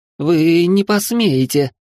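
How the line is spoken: Trembling shout, young woman. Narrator (Russian): дрожащим голосом выкрикнула девушка

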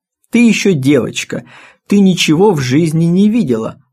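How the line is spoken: Gentle, affectionate husband. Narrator (Russian): ласково сказал муж

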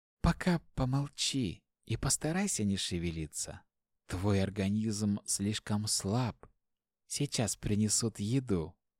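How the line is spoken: Very tender healer's voice. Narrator (Russian): очень ласково произнесла целительница

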